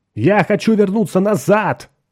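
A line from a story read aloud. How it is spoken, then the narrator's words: Shouted. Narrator (Russian): закричал он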